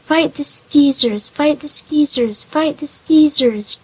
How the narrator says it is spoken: grunted the golden pig

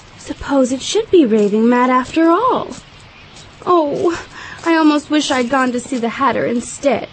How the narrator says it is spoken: saying to herself

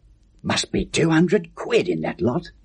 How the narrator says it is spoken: muttered

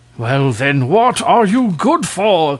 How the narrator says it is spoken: cried the king in a fury

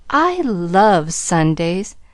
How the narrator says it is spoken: she sighed happily

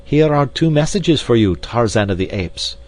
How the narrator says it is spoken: cried D'Arnot

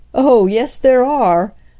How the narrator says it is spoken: laughed the man

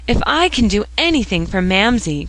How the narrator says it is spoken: cried Phronsie, in rapture

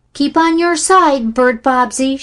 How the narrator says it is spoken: shouted Charlie warningly

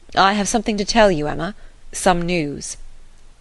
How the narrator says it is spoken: in a graver tone began with

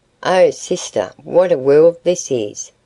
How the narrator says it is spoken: exclaimed

